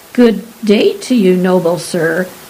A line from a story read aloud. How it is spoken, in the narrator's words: sputtered Professor Mungoose, struggling to sit up